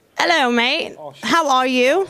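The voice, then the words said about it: Poor attempt at a London accent. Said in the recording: “a Londoner. Everyone can do a Londoner. ... Stop. Leave it alone. ... I'll stick to my American accent”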